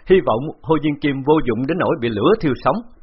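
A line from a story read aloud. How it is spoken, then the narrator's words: Loud laughter. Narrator (Vietnamese): Bạc Phong Hàn cười lớn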